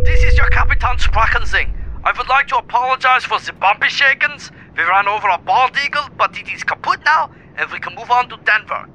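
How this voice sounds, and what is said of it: Put-on German accent. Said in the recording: “Why does he have a German accent now?”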